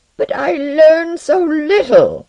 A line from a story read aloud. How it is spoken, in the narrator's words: Lenoir cried out to the empty room